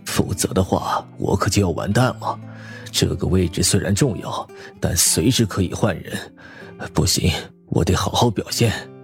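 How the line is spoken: Muttering. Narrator (Chinese): 楚云龙嘟囔起来

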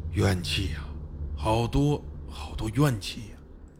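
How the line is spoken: Muttering. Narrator (Chinese): 嘴里嘟囔着

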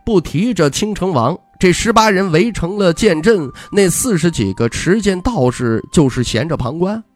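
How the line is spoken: Solemn. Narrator (Chinese): 魏书阳神情肃穆，摇头道

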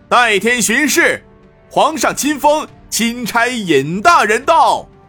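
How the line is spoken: Distant loud shout. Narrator (Chinese): 忽听得军队后面有人大喊

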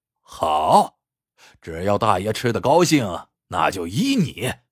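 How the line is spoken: Laughing. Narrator (Chinese): 刘大麻子笑着说

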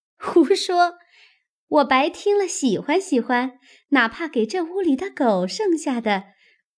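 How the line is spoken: Laughing. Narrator (Chinese): 秋文笑道

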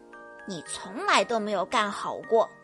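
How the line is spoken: Quiet muttering. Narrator (Chinese): 德克小声嘟囔着

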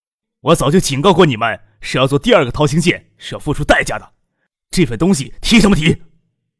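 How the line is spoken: Furious roar. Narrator (Chinese): 勃然大怒……大声咆哮

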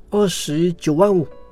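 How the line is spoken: Reluctant, teeth gritted. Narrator (Chinese): 客户咬了咬牙说

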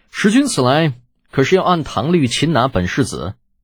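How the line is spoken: Cool question. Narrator (Chinese): 李浩带严飞白 淡淡的问道

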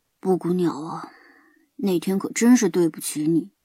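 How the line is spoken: Murmuring. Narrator (Chinese): 高修……喃喃地说道

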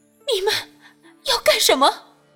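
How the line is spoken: Terrified trembling voice. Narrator (Chinese): 杨金惊恐地颤声道

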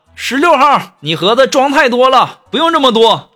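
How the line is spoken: Shouting. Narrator (Chinese): 喊

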